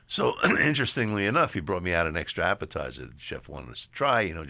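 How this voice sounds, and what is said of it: New York accent. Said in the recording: “he heard the accent. I said, New York.”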